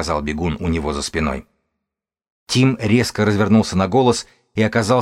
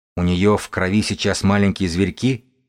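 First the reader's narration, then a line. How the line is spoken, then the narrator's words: Plain. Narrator (Russian): спросил он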